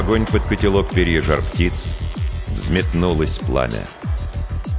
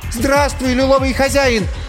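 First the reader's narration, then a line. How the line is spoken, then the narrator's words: Trembling shout. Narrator (Russian): крикнула Ирина дрожащим голосом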